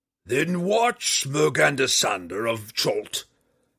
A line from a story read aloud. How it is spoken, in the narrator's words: Hephaestus roared